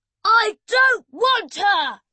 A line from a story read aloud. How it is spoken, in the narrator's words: Emily stop being a saint and start shouting at him like she usually did